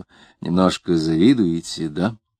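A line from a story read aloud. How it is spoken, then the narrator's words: Almost tender question. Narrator (Russian): он спросил почти ласково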